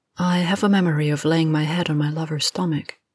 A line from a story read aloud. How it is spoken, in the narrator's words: she said finally, her voice lowered